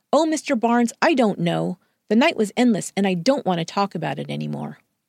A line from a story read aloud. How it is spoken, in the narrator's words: Louise snapped